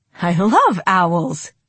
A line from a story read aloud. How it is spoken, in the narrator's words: Sunny exclaimed